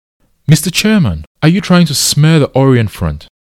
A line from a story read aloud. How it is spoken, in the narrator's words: Salim Rashid shouted